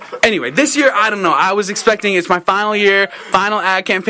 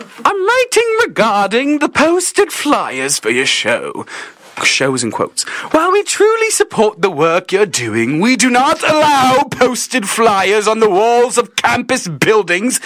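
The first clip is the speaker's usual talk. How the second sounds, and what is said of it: Put-on British accent. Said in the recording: “Let's just hear like a British accent.”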